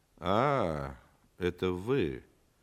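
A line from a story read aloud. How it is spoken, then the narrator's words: Disappointed drawl. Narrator (Russian): разочарованно протянул антрепренер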